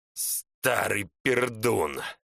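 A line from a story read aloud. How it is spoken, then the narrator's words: Angry hiss over crying baby. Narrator (Russian): Джорджи зло шипел, не слыша себя за ревом малышки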